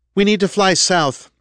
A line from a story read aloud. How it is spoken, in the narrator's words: Kendra said, her voice coming loud and clear through Andrew's headset